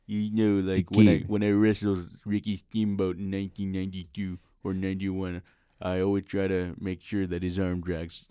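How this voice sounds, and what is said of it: Triple H impression sounding like Ric Flair. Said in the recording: “your Triple H always sounds like Ric Flair ... impersonation of Triple H sounds a lot like Ric Flair today ... That sounds like Ric Flair in a nursing home.”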